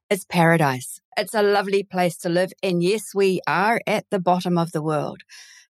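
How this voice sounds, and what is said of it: New Zealand accent. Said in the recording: “I sound Kiwi. My accent is definitely Kiwi.”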